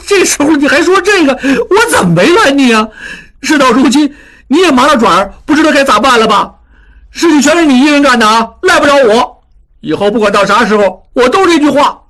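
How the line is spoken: Angry shouting. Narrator (Chinese): 小栓气得直叫

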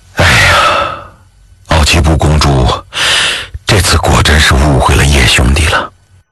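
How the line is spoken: Sighing. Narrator (Chinese): 卫青……他叹了口气

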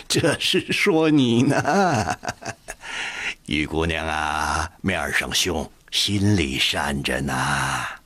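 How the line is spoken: Laughing. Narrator (Chinese): 阿贵笑着对乐敏说

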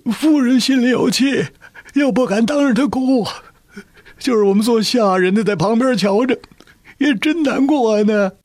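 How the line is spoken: Tearful, choked voice. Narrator (Chinese): 那家人满眼是泪，哽咽着说

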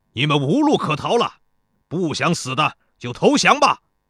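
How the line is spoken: General shouting loudly. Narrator (Chinese): 右边的一个齐国将军高声喊道

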